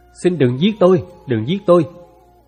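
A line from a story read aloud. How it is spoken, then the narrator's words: Terrified trembling pleading. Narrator (Vietnamese): cô Thẩm vô cùng sợ hãi, toàn thân run rẩy, cất tiếng van xin như thể đang là Trương Phú Gia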